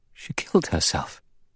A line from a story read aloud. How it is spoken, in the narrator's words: Vera whispered, horror-struck